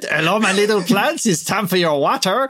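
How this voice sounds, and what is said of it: Comedy French accent. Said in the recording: “talking to the plants in a comedy French accent”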